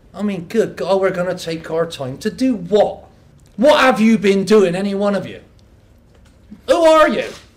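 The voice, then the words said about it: West Country English accent. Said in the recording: “in a West Country accent ... It's halfway between a farmer stereotype and a great football chant”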